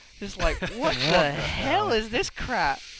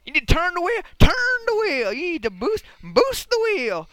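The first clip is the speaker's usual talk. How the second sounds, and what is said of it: Impression of an excited TV commercial. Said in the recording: “I'm going to do my impression of that commercial”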